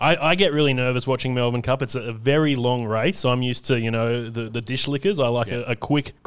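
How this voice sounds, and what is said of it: Usual voice. Nothing is said of it.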